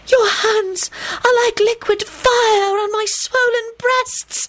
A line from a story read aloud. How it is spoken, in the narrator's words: the girl wailed loudly